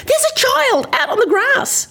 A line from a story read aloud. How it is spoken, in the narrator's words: Madison screamed